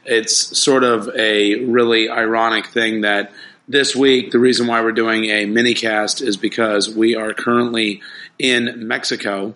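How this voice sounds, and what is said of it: Somber, subdued voice. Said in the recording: “you can probably hear in my voice that I'm a little bit on the somber side”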